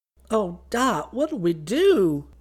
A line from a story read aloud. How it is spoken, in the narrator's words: she wailed